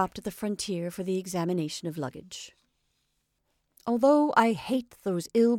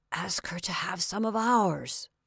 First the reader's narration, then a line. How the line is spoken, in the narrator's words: Paul said in a whisper